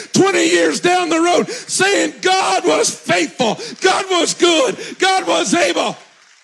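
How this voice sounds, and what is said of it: Yelling, loud preaching voice. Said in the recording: “why are you yelling?”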